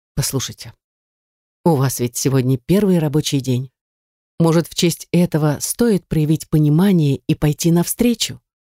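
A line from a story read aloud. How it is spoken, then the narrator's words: Almost tender. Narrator (Russian): Почти ласково сказала я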